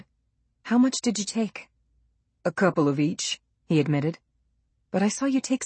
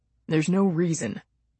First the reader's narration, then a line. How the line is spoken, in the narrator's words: he said in a dull voice